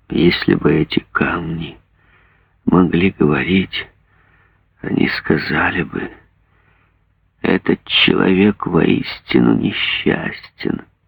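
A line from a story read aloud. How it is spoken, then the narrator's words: Whisper. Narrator (Russian): он прошептал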